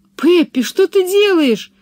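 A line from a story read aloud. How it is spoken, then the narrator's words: Horrified exclamation. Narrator (Russian): в ужасе воскликнула Анника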